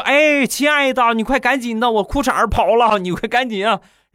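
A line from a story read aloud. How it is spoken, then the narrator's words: Hurried shout. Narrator (Chinese): 我就赶紧喊她，我说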